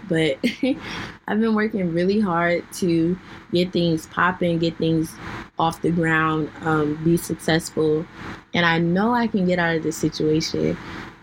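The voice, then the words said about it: Hoarse, fading voice. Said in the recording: “I'm losing my voice today ... you guys can hear me clearing it out”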